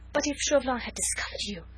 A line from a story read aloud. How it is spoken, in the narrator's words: she gasped excitedly